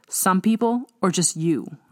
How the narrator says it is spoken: I asked sharply

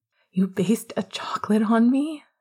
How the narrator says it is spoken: He asked, his tone giddy and sharp

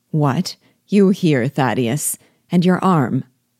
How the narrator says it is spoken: D'Auvergne said in a severe tone

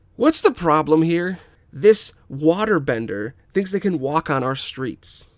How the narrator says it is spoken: Jan yells

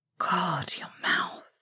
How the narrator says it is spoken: Sirius whispered

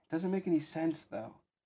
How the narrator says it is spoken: Pence sighed

